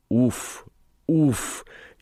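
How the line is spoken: Barely audible panting through teeth. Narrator (Russian): едва слышно отдышалась Элли сквозь зубы

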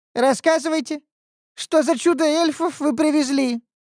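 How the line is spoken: Squeaky, hysterical, petulant young man. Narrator (Russian): пискнул парень истерично капризным голосом

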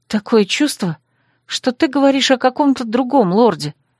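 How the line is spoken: Thoughtful mutter. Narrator (Russian): задумчиво пробормотала я

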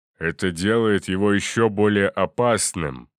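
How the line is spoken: Growled. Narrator (Russian): прорычал Гелиус

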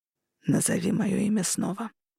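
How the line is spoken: Growled in ear. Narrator (Russian): прорычал он мне на ухо

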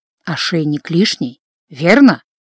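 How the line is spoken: Insinuating whisper. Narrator (Russian): вкрадчиво прошептал Гордон

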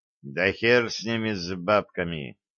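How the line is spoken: Quiet mutter. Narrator (Russian): тихо пробормотал Джо

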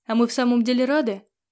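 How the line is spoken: Snorting. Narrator (Russian): Хмыкнула

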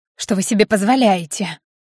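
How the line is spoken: Hoarse flustered exclamation. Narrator (Russian): Немного севшим голосом, пытаясь еще как-то выбраться из щекотливой ситуации, уже понимая, что она просчиталась, воскликнула Татьяна

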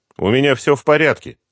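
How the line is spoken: Cheerful voice. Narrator (Russian): отвечаю я бодрым голосом

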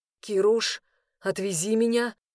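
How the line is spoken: Hoarse request. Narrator (Russian): попросил я хрипло

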